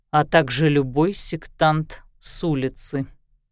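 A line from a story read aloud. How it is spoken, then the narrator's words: Soft. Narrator (Russian): мягко добавил Безымянный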